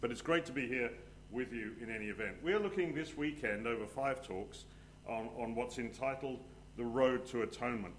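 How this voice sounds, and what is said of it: English accent mixed with American. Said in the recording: “I am an Englishman, but I am an expat who has willingly exiled himself from the soggy motherland and relocated to sunny California ... So if there's somewhat confusion in my accent”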